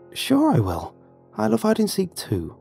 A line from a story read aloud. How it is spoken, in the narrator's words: replied warmly